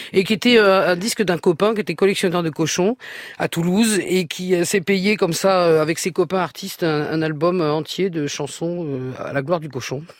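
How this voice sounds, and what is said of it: Southwestern French accent. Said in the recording (French): “Vous reprenez l'accent du sud-ouest, là, quand vous parlez par moment.”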